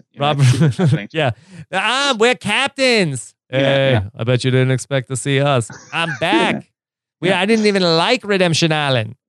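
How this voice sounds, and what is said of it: Slipping Russell Hantz impression. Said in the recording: “Your Russell Hance impression is slipping a little bit ... my voice is slipping because I've been talking for 2 hours”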